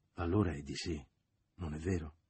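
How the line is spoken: Man's murmur. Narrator (Italian): egli mormorò

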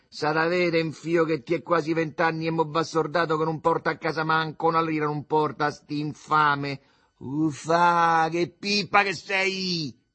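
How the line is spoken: Shouted. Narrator (Italian): gridò Alduccio

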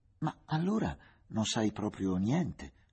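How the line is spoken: Exclaimed with loud laugh. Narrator (Italian): esclamò, scoprendo in una gran risata le esangui gengive

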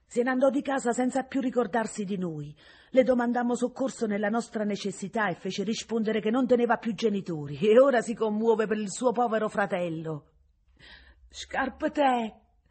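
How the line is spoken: Tender frightened cry. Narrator (Italian): chiamava con un grido dove tenerezza e spavento erano una sola cosa la giovane Vincenzina

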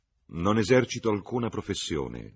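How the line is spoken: Plain. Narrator (Italian): disse Cecil

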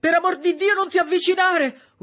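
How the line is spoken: Horrified scream. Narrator (Italian): urlò Septimus, perché non tollerava di vedere i morti

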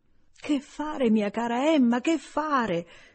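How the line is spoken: Helpless exclamation. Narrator (Italian): fu la prima esclamazione del signor Woodhouse

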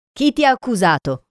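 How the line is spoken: Shout. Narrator (Italian): urlò una voce

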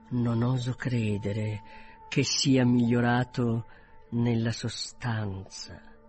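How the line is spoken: Quieter, more serious. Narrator (Italian): soggiunse più piano e in tono più serio

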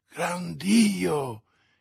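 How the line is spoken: Exclamation. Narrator (Italian): esclamò D'Artagnan

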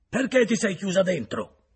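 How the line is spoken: Shouted. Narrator (Italian): gridò

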